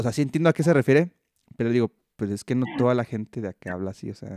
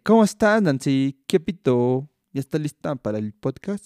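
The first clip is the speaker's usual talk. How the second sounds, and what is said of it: Exaggerated imitation of local regional accent. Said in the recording (Spanish): “para tener como el acento de por acá ... quería hacer como el acento así en extremo de ... tratar de imitarlo ... sería exageración. No sería tan auténtico”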